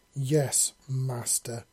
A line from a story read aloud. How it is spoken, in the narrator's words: she growled, making it sound somehow like a threat